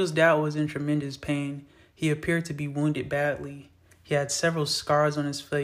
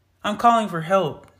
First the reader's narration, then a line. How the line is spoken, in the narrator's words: Tito yelled